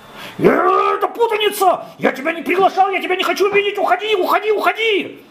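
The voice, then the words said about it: Angry shouting. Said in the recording (Russian): “не кричи так, не кричи, все услышат. Что ты раскричался?”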